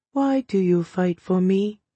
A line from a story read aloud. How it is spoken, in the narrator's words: She asked in a soft voice